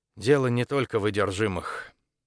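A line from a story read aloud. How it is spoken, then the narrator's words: Sighing. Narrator (Russian): декан вздохнула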